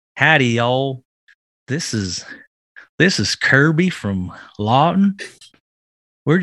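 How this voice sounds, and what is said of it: Put-on Southern US accent. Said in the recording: “Do it in a southern accent”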